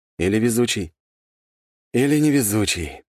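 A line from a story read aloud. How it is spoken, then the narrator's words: Sighing. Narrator (Russian): вздохнул я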